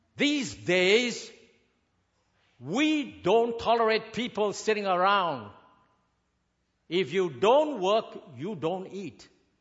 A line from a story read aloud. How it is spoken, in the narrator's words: this big boss yelled at her and said